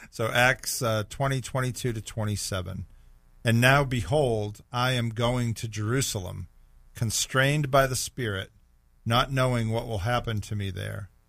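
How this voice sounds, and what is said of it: Hoarse, strained voice. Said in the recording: “<clears throat> I'm losing my voice.”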